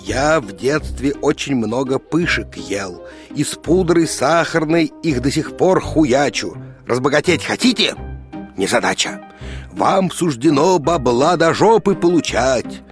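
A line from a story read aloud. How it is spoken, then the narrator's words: Quiet hissing. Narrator (Russian): тихо зашипел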